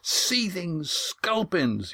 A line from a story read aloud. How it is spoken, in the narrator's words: yelled Astraea